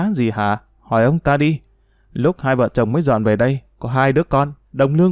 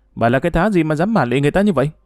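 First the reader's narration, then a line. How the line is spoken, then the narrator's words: Exasperated shout. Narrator (Vietnamese): Bà Phùng không nhìn được nữa, hét lên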